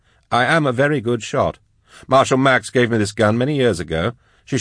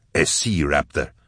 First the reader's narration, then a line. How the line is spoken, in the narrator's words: growled Vorier from his cage